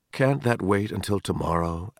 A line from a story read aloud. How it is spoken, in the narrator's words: asked Mr